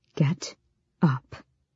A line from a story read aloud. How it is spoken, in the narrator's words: whispered